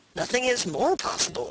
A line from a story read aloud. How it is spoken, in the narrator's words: said Cacambo